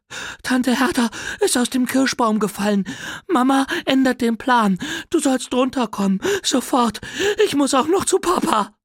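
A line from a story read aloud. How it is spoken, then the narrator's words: Breathless panting. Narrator (German): völlig außer Puste, keuchte und sagte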